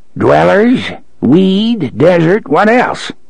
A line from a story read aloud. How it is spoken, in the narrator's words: He cackled